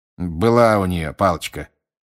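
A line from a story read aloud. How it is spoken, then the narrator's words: Grumbling. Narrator (Russian): проворчал мистер Диггери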